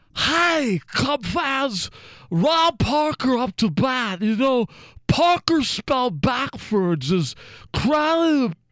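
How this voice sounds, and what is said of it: Harry Carey announcer impression. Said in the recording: “Is that your Harry Carey impression? ... I'm really good at doing impersonations of announcers. You want to hear my Harry Carey ... That's pretty good.”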